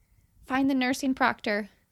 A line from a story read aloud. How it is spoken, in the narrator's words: I say urgently